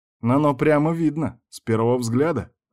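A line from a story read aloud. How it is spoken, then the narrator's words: Man answering with chuckle. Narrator (Russian): ответил мужчина и хохотнул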